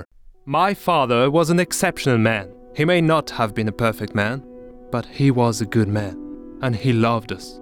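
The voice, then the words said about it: English with slight French accent. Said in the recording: “an English voiceover with a slight French accent.”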